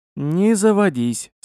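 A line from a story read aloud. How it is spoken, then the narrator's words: Calm reply, fat man. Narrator (Russian): спокойно ответил толстяк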